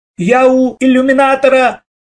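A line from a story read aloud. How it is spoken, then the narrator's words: Shouted. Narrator (Russian): закричал Лешка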